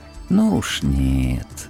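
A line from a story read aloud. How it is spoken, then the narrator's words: Gentle, smiling. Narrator (Russian): ласково улыбнулся Куш-Тенгри, неправильный шаман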